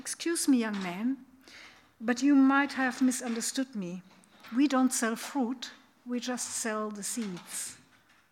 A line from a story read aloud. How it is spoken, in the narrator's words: interrupted him very calmly and said